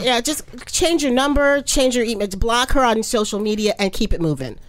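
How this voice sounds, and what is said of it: Usual voice. Nothing is said of it.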